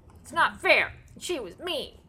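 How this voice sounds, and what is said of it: Kavanaugh as petulant four-year-old. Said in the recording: “It was a petulant four-year-old ... That's a good imitation.”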